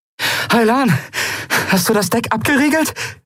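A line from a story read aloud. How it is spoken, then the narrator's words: Call while running. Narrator (German): rief sie im Laufen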